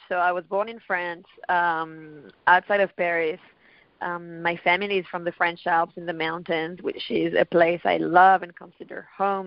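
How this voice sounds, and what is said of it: Speaks English with an accent. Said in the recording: “I hear an accent ... my accent has been changing so much”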